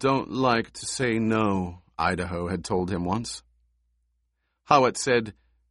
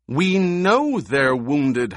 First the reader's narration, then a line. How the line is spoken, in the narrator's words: Howitt snapped